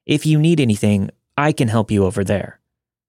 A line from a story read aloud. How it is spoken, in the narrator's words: This gave me a very strange feeling, so I sternly said